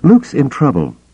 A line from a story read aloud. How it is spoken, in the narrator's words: Leia said breathlessly